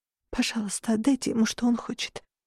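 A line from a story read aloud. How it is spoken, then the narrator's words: Girl whispering. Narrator (Russian): прошептала девочка Дразири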